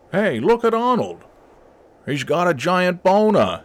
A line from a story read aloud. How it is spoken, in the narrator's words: yelled Pubes Montana